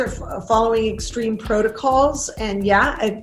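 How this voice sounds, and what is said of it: Usual voice. Nothing is said of it.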